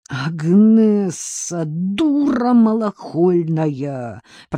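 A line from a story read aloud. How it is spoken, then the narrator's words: Groaned. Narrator (Russian): простонал ей вслед Артем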